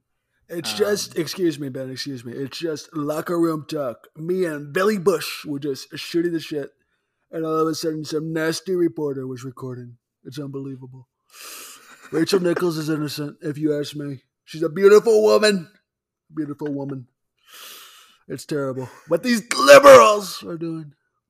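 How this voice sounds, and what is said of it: Imitates another person's voice. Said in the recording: “great Kendrick Perkins impression.”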